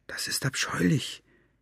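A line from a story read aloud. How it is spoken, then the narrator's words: Whispering. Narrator (German): flüsterte Maggie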